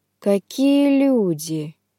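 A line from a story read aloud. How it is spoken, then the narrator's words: Drawling. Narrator (Russian): протянул маг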